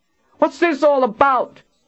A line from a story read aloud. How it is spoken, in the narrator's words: Tristan shouted